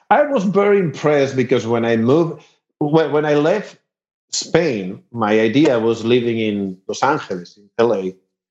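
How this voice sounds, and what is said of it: Very thick accent in English. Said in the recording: “I have a very thick accent, but it's not because I'm from Spain. It's because I learned English in Texas”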